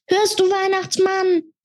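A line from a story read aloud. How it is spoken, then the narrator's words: Bellowing. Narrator (German): brüllte er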